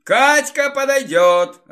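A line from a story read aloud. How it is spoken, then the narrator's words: Laughing. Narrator (Russian): рассмеялся Рыгор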